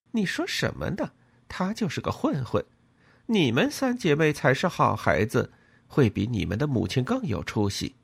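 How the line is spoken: Laughing, sighing. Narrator (Chinese): 其他时候他会笑着感叹说

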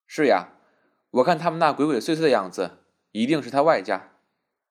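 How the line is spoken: Faint smile. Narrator (Chinese): 曼桢淡淡的笑了一笑，道

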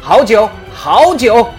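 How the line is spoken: Loud praise. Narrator (Chinese): 他高声赞美道

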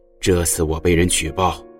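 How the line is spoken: Sighing, reminiscent. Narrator (Chinese): 简雄风又深深叹息了一声，回忆似的说

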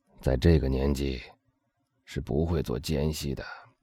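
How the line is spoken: Soft voice. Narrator (Chinese): 那声音轻轻的说

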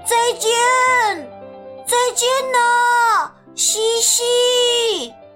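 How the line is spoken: Loud shout. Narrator (Chinese): 我大声喊起来

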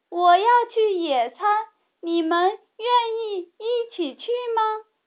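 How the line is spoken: Loud shout. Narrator (Chinese): 他对茉莉大声喊

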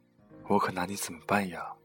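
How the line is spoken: Inner exasperated sigh. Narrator (Chinese): 在心里叹息

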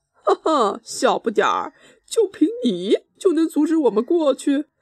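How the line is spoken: Loud mocking laughter. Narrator (Chinese): 诺瓦王子哈哈大笑

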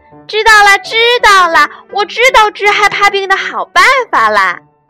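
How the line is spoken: Happy shout. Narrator (Chinese): 它高兴地喊

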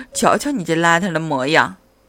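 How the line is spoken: Mother's sigh. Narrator (Chinese): 妈妈叹了口气说

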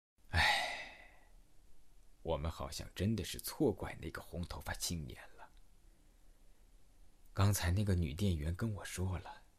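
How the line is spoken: Sighing. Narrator (Chinese): 中年大叔叹了一口气，对我说

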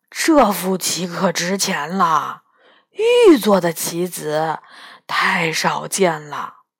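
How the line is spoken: Muttering. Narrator (Chinese): 元宝嘴里嘟囔着

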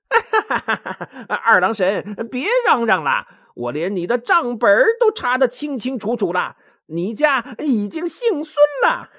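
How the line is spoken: Loud laughing. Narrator (Chinese): 哈哈大笑，说

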